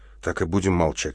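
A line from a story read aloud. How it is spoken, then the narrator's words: Soft question. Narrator (Russian): мягко спросил Андрей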